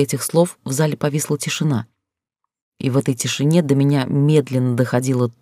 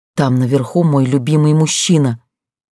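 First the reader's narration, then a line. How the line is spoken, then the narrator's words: Breathless. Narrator (Russian): выдохнула я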